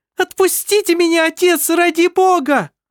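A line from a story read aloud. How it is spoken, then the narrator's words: Shouting. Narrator (Russian): закричала она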